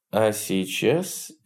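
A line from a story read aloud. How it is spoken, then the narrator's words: Quiet. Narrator (Russian): тихо произнес он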